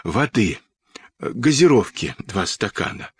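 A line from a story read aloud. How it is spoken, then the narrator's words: Hoarse request. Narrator (Russian): хрипло попросил Сашка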